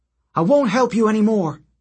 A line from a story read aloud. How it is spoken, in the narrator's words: she yelled